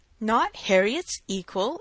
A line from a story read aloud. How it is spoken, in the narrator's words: exclaimed Mr